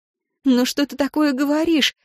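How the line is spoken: Moaning. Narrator (Russian): застонала она

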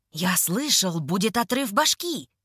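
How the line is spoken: Excited speech. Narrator (Russian): взволнованно говорит один из них

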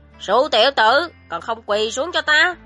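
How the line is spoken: Roaring. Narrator (Vietnamese): Lăng Viễn Kiếm gầm

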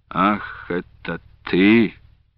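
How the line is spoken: Quiet, menacing voice. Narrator (Russian): негромким и недобрым голосом произнес он

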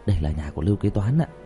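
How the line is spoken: Quiet voice. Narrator (Vietnamese): Kỳ thần nhỏ giọng

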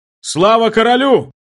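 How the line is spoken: Sudden roar. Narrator (Russian): Неожиданно взревел кто-то из его соратников

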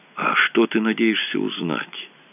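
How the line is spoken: Whisper. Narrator (Russian): прошептал Рэндалл Синти

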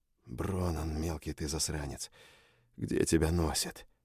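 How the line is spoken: Whispered. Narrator (Russian): прошептал я

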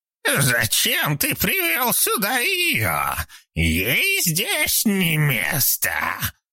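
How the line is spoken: Hiss. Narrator (Russian): зашипела Эмма

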